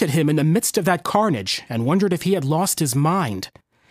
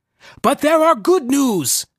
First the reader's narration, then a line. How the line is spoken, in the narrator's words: cried, his air of sad contemplation lifted